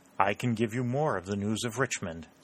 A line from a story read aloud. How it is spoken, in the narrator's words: said the secretary